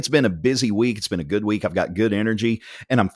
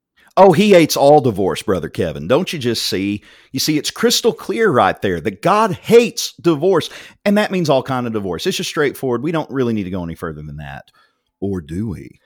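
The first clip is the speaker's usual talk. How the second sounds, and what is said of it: Sarcastic, mocking tone. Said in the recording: “I'm being sarcastic again ... I'm feeling snarky tonight”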